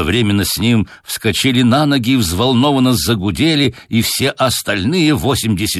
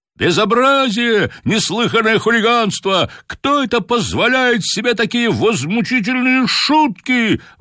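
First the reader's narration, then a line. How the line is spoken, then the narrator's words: Excited crowd shouting. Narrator (Russian): возбужденно кричали на трибунах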